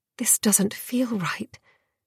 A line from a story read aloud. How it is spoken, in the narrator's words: Dior murmured